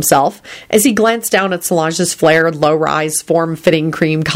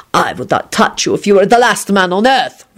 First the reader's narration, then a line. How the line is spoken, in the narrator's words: Radu hissed malevolently